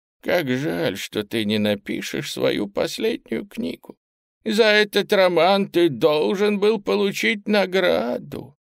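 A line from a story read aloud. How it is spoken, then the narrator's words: Sad speech. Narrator (Russian): она грустно сказала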